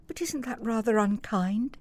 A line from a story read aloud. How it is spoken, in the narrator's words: said Helen softly